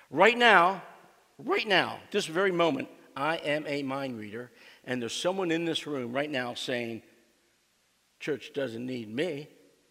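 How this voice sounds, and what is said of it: Put-on Southern accent. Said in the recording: “That was my southern accent”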